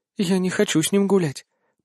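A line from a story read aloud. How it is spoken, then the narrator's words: Very quiet whisper. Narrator (Russian): прошептала очень тихо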